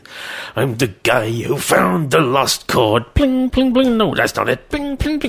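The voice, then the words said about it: Imitates another person's voice. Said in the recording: “my Jimmy Durante impression ... Jimmy Durante, the schnoz”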